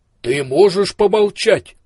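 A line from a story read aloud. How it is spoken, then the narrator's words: Thundering. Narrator (Russian): прогремел слепой Ио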